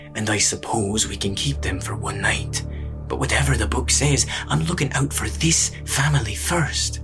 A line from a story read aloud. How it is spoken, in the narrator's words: he heard the old man mutter through the door